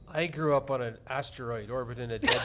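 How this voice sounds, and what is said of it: Imitates another person's voice. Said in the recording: “I just did the voice ... That's a pretty good impersonation ... There's like two of you”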